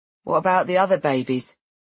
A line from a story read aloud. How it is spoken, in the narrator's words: I laugh